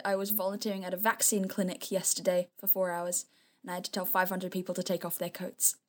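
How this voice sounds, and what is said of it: Slightly tired voice. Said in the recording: “Sorry if I sound a bit tired.”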